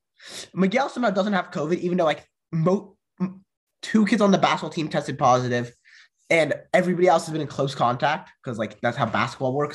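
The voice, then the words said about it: Slightly off, congested cold voice. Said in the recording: “my voice sounds a little off, it's because I have a cold ... I kind of have like a little bit of a cold”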